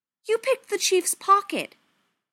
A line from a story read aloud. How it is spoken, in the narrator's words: Zane said hotly